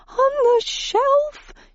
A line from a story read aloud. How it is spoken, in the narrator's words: she shrieked